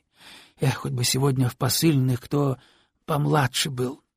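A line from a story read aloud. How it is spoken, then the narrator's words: Wistful sigh. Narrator (Russian): тоскливо вздохнул он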